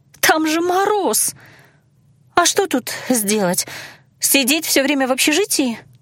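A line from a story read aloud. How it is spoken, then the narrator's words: Strained, forced out. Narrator (Russian): выдавила Иланна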